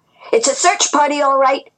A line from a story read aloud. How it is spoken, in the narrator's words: Ji-Yun shouted